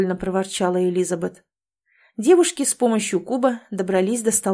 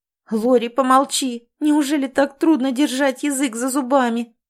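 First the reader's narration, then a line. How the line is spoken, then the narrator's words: Groaning. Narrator (Russian): простонала Элизабет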